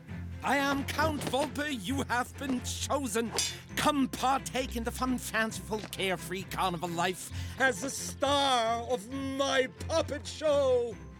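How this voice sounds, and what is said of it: Glitzy cosmopolitan accented villain voice. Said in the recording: “Volpe needed to be glitzy, cosmopolitan, appealing, sound like a man of the world ... We wanted him to have an accent”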